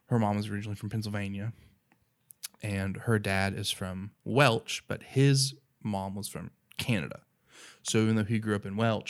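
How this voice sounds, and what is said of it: Thick Appalachian accent. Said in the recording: “it's the same thing for Appalachians ... there's a stigma attached to our accents and the way that we talk ... I have a thicker one than her”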